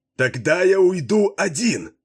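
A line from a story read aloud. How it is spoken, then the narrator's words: Yelling. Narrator (Russian): заорал Макгун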